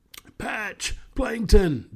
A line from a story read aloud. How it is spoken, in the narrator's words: Dobie shouted at them